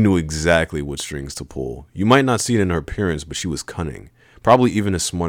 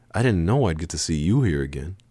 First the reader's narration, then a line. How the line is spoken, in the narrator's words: she said softly